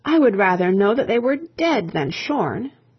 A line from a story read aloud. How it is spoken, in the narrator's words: In despair, the old queen cried out